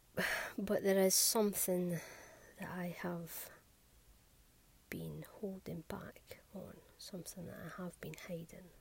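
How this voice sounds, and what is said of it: Scottish accent. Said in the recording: “I have a Scottish accent”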